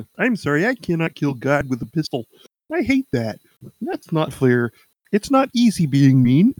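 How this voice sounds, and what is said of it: Good Kermit the Frog impression. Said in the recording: “it's actually a pretty good impression.”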